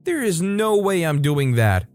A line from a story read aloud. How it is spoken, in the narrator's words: yelled